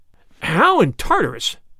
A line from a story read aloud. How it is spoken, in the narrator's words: cried Flambeau